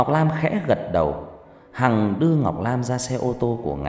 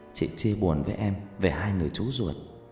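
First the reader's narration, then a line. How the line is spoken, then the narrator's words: Soft intimate murmur. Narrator (Vietnamese): Hằng thủ thỉ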